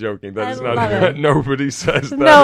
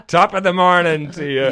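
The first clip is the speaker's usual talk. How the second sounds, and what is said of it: Exaggerated stage Irish accent. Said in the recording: “I could make it more Irish.”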